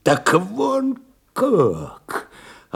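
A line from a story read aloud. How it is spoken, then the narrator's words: Sudden falling voice. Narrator (Russian): Опадающим голосом вдруг произнес Овчинников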